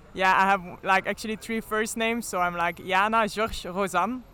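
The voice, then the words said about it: Flemish accent. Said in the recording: “with your Flemish accent? ... the accent and the pronunciation, but it kind of sounds French”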